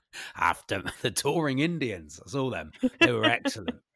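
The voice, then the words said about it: Impression of John Arlott. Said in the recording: “that impression, John Arlott ... What is his accent? ... I don't even know if it's accurate, the impression I'm doing ... the voice”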